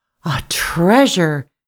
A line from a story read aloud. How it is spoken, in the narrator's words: gasped the woman, as soon as she could speak from surprise